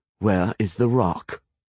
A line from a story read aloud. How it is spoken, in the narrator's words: Connor asked coldly